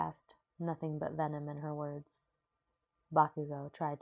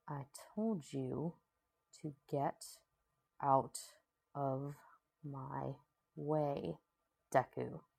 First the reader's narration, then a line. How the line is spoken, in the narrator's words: growled, his voice dangerously low